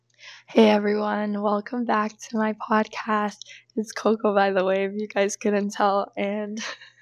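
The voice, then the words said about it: Hoarse, strained lost voice. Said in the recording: “lost my voice at volleyball provincials from all the yelling. So, my voice has changed once again”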